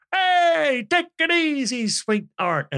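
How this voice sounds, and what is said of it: Imitates a gangster character voice. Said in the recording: “the Colin Farrell Penguin impersonation ... complete stereotypical gangster”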